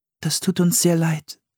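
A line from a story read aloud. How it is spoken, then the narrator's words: Said quietly. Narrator (German): sagte leise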